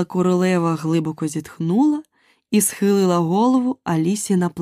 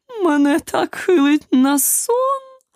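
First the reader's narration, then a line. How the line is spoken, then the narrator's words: Moaning. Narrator (Ukrainian): простогнала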